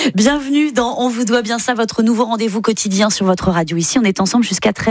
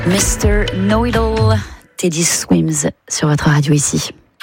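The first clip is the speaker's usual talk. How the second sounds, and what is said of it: Put-on English accent, smooth voice. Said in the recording (French): “mon accent ridicule ... une voix suave ... Suis-je londonienne?”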